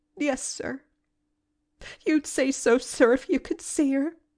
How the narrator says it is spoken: choked Nancy

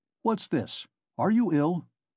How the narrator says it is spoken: Nikodim Fomitch asked, rather sharply

